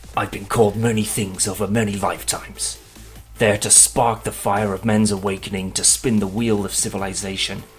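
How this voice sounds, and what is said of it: Powerful, dramatic villain character voice. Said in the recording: “in your best Apocalypse voice ... I'll read this with all the power I can muster”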